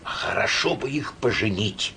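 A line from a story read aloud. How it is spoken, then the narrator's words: Quiet. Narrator (Russian): тихо сказала мне директорша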